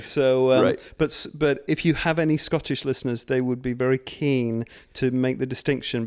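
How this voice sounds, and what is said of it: British accent. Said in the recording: “You have an English accent.”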